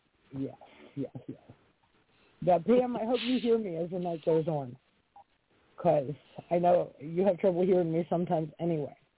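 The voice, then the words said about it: Raspy, hoarse voice. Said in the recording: “my raspy voice. This is my Wednesday voice, but I brought it to Friday ... It's your sexy voice.”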